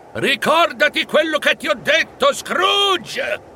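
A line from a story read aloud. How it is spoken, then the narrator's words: Shouted. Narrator (Italian): gridare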